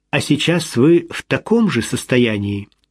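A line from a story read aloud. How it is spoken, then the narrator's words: Calm question. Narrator (Russian): спокойно спросил Том Армур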